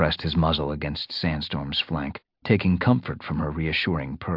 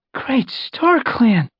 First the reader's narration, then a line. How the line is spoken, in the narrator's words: he said with a gasp